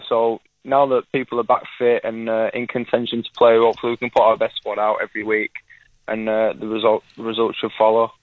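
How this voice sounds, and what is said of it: Manchester English accent. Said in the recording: “You still haven't lost a bit of that Manchester accent”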